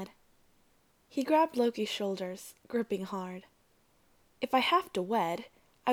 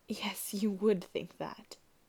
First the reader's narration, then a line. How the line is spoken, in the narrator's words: he said after a moment, his voice shaking